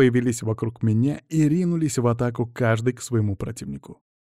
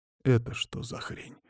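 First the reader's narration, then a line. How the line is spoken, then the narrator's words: Quiet question. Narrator (Russian): тихо спросил меня Андрей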